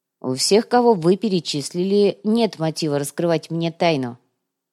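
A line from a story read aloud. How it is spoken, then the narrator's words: Very cold, slightly embarrassed. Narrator (Russian): слегка смутился и очень холодно произнес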